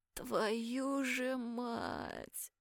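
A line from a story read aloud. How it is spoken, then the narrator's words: Groaning, just woken. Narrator (Russian): простонала я, едва проснувшись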